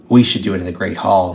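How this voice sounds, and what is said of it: Gravelly Batman-style voice. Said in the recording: “gave her the Draco Batman voice”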